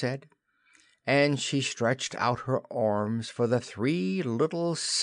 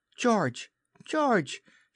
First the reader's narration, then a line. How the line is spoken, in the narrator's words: she cried when she could speak